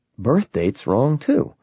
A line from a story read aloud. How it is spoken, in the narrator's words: Wesley muttered